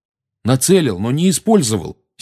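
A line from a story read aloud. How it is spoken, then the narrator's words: Angry. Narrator (Russian): сердито начал Гарри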